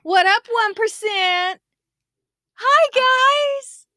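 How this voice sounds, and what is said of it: Unusually high-pitched voice. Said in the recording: “My voice went so high. ... That's not me.”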